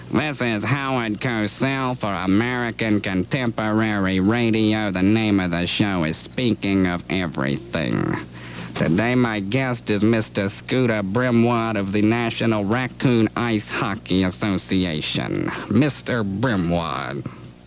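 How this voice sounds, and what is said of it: Imitates another person's voice. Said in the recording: “now I'm going to impersonate Howard starting the show.”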